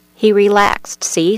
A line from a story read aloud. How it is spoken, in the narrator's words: said Wild Man